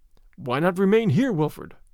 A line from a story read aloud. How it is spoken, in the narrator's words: said my father